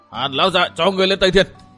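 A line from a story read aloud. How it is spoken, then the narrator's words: Sudden shout. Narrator (Vietnamese): một bóng đen tiếng hét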